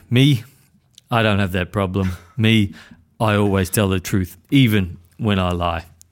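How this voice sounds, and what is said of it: Inconsistent put-on movie gangster accent. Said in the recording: “The worst Tony Montana impersonation. ... The accent was just coming and going, and then it got really, really strong.”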